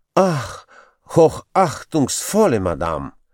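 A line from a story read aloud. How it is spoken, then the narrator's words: Sighing man. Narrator (Russian): вздохнул еврейчик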